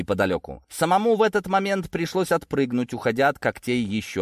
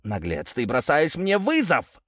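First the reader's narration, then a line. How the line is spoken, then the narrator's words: Angry growl. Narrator (Russian): зарычал он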